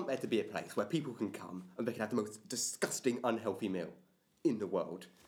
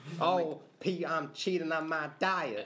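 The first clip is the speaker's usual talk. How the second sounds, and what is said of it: Attempted American accent. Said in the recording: “American accent ... I can't do an American accent”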